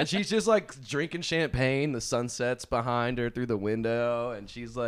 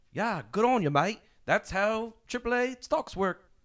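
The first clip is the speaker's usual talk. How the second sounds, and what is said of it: Imitation of Margot Robbie's accent. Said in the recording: “good accent. ... I thought Margot Robbie was here.”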